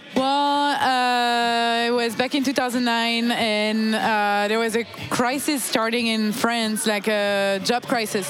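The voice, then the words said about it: French accent in English. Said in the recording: “as you can hear, I have not lost my French accent.”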